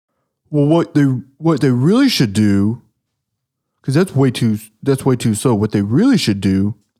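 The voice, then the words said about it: Mocking internet know-it-all voice. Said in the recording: “someone on the internet would probably be like ... I'm going to do an impression.”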